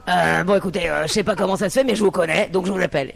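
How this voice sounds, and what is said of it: Imitates another person's voice. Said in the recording (French): “Je peux faire ta voix?”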